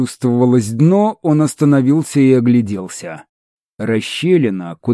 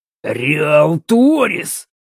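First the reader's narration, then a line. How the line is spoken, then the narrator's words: Growled. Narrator (Russian): прорычал Эль Торро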